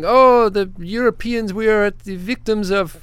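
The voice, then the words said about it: Put-on mock French accent. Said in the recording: “I don't know what kind of accent I'm doing ... that was good, though. That was good. ... Pepe Le Pew? ... doing French”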